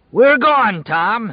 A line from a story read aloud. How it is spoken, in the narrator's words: he bellowed